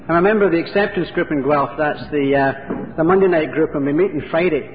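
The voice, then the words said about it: Non-local accent. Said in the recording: “You can tell by my accent that I'm not from this part of the world.”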